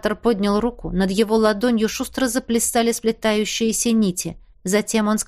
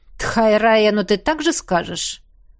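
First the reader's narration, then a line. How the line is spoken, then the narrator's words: Vampire's scoffing grunt. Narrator (Russian): хмыкнул вампир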